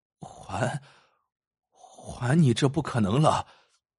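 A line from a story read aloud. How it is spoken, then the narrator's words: Trembling voice. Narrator (Chinese): 王大夫颤声说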